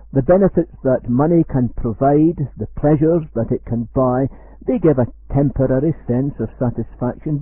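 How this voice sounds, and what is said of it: Scottish accent. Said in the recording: “You will know from my accent that I originate in Scotland.”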